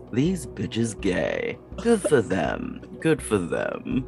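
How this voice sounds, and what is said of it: Butler-like character voice. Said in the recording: “in this very butler voice”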